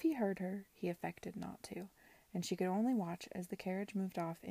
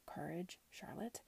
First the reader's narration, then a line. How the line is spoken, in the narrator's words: she murmured under her breath